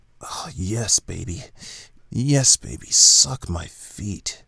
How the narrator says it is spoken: he moaned

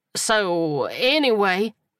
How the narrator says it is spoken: he stammered, trying desperately to change the subject

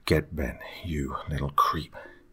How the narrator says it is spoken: I muttered under my breath

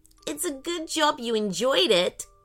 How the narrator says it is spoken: giggled Ellie

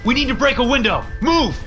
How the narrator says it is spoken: I shouted

